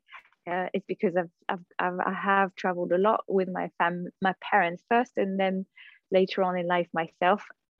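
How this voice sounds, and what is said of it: Hard-to-place mixed foreign accent. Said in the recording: “If you hear my accent, a lot of people can't really tell where I'm from”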